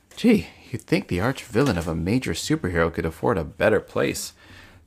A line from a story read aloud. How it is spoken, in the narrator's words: Turtle Titan whispered to himself